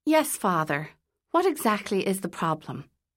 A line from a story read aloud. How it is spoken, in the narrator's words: she asked